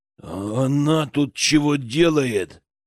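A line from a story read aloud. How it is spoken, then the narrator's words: Sudden growl. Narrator (Russian): мигом зарычал Богдан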